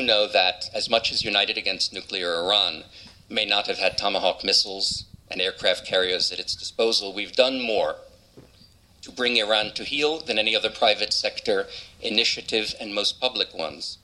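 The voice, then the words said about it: American New York-Florida accent. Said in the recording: “if you're trying to place that accent, it's born in New York, raised in Florida”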